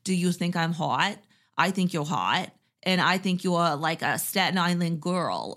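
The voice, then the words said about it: Poor imitation Boston accent. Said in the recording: “that was my like horrible Boston accent”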